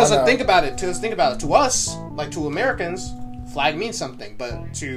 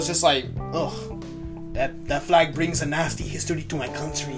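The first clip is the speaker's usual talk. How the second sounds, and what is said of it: Put-on vaguely Venezuelan accent. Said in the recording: “I don't know what accent that was... That was, like, Venezuelan or something.”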